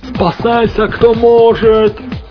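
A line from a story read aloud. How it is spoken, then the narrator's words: Yelling. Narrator (Russian): заорал Хелман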